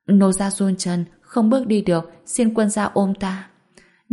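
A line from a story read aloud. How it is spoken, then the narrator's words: Small trembling voice. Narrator (Vietnamese): Úy San bị trêu chọc, âm thanh nhỏ bé run rẩy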